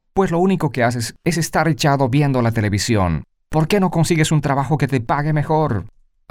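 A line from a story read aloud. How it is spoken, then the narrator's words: Woman shouting. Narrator (Spanish): ella grita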